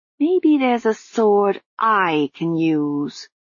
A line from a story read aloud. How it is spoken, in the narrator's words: Susan growled